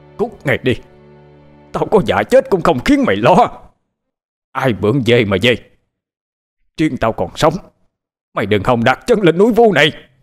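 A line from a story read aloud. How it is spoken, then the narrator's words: Screaming loudly. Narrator (Vietnamese): Huyền Ân thét lớn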